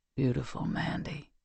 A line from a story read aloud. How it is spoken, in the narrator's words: he whispered